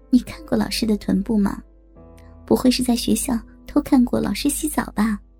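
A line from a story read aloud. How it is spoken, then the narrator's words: Quiet voice. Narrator (Chinese): 阿强小声的说着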